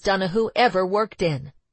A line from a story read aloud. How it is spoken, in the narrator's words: he said sharply